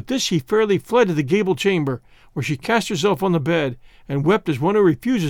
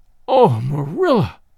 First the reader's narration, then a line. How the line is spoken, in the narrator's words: cried Anne